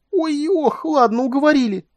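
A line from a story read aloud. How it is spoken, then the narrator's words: Squealing. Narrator (Russian): взвизгнула Куин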